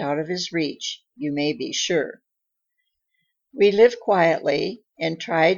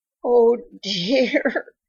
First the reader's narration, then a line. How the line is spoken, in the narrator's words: she sobbed